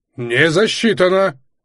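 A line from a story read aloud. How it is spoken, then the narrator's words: Indignant shout. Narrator (Russian): возмущенно крикнул Майдель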